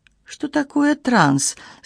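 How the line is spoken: Innocent questioning tone. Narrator (Russian): совершенно невинным тоном спросила я

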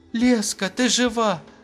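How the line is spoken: Exclaimed. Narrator (Russian): воскликнула я

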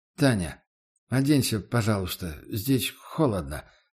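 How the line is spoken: Mumbled. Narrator (Russian): промямлил я

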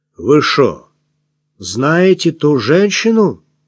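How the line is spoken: Insinuating question. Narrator (Russian): спросил он вкрадчиво

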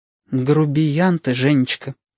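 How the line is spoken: Sad. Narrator (Russian): печально сообщила Валентина

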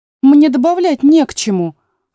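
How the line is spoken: Offended tone. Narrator (Russian): обиженно сказала Алиса

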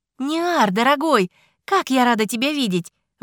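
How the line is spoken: Exclamation. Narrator (Russian): воскликнула Лаара

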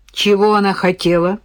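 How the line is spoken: Angry wife's question. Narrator (Russian): спросила зло жена

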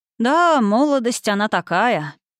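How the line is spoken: Nostalgic sigh. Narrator (Russian): лекарь ностальгически вздохнул

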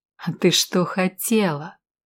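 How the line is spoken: Angry hiss through teeth. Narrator (Russian): Снова прошипел он ей в лицо, стиснув от злости зубы

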